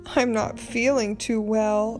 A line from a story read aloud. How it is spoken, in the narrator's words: moaned as we took a bad bounce